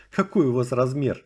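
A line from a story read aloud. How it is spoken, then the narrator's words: Asking after laughing. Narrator (Russian): Наконец, отсмеявшись, поинтересовалась она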